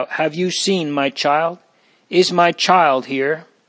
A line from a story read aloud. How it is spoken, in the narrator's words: cried out